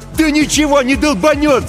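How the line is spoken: Yelling. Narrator (Russian): заорал Эрл

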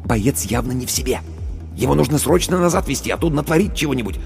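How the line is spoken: Whispering officer. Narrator (Russian): Командир медотделения, шепнул

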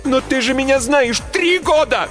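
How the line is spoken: Shouting. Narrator (Russian): закричала я

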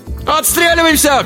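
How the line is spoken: Shouted. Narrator (Russian): крикнул Алибек

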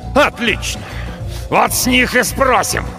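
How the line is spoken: Furious spluttering growl. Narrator (Russian): Сорокин рычал, брызгая слюной, сдавшись на милость душившей его злобы

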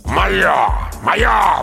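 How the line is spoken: Growled. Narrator (Russian): прорычал он

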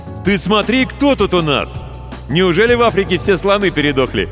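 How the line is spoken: Delighted yell. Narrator (Russian): восхищенно завопил Ваня Кожин

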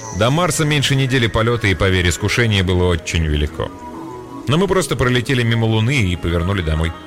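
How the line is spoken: Laughing. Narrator (Russian): Позволив себе рассмеяться, он добавил

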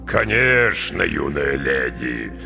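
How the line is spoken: Deep bass. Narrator (Russian): густым басом подтвердил капитан

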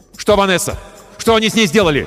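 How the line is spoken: Shout. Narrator (Russian): крикнул я

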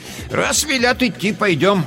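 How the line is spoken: Grandmother, loud. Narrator (Russian): громко сказала бабушка

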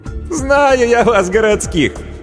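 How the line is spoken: Sincere laughter. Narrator (Russian): Анна искренне рассмеялась

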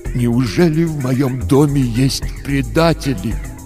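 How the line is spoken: Tragic voice. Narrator (Russian): отец сказал трагическим голосом

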